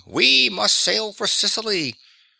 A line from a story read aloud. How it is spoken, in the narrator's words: For Demonstratus, let bad luck befoul him, was roaring